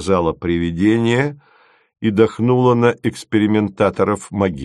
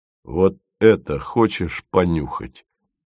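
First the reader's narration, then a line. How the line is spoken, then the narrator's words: Gently asked. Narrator (Russian): ласково спросил он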